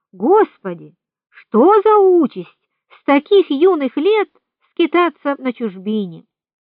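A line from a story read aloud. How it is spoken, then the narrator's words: Exclaimed. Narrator (Russian): воскликнул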